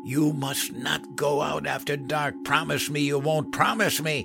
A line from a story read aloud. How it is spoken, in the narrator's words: She cried with her face in her hands, hissed